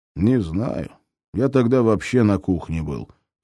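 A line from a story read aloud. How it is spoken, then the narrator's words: Grumbling mutter. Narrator (Russian): пробурчал Крупеня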